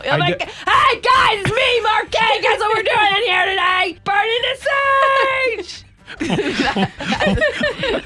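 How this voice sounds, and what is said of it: Loud, yelling imitation of another person. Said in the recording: “That's how loud you are. ... Why am I Grover all of a sudden? ... You're very loud on your Instagram. You're yelling like your phone isn't right next to your face.”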